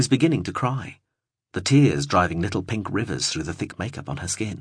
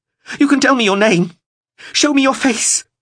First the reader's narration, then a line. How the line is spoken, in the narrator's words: gasped